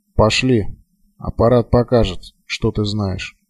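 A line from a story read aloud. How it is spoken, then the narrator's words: Quiet. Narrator (Russian): негромко произнес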